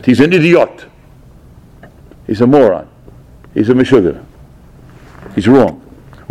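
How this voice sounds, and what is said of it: Imitating Rav Gifter's accent. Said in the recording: “As with Rav Gifter's accent”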